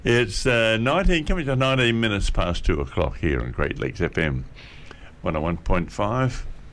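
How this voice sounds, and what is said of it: Croaky voice. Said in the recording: “Excuse my voice a little bit today, everybody. It's a little bit croaky.”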